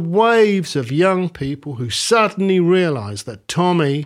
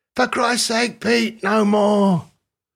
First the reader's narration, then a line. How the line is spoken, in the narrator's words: Keith shouted